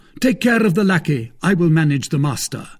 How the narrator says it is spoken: called out D'Artagnan

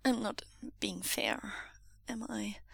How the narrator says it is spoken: Wei Wuxian says, his voice small

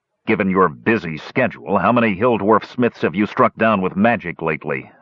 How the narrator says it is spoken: Flint growled bitterly

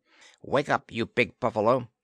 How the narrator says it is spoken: Planter heard him snarling

